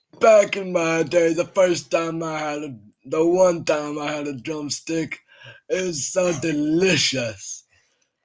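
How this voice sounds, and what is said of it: Old man voice. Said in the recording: “old man ... I do a pretty good impression.”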